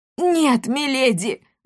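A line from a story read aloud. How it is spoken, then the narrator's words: Archivist's anguished wail. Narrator (Russian): взвыл архивариус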